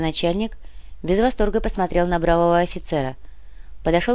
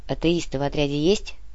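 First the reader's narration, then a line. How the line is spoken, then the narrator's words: Quiet question. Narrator (Russian): тихо спросил Шведов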